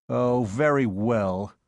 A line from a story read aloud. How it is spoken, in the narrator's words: said Hargate sullenly